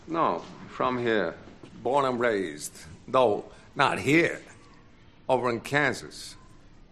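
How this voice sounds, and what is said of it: New York accent. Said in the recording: “your accent sounds like New York or something”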